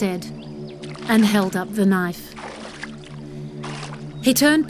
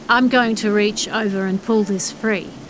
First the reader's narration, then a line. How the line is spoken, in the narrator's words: he said stiffly